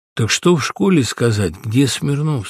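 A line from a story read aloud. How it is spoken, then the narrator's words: Plain. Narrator (Russian): спросил я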